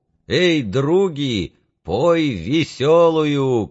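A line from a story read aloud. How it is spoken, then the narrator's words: Joyful shouting. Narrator (Russian): Клим радостно кричал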